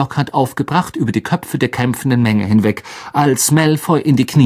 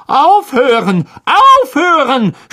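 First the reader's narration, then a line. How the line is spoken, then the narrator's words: Screaming. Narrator (German): schrie Lockhart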